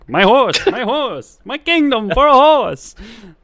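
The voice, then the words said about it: Theatrical Shakespearean put-on accent. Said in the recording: “I like the accent you put on that one. That was good... that's a Bill Shakespeare accent... A Billy Shakes accent”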